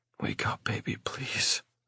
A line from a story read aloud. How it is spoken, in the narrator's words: I whisper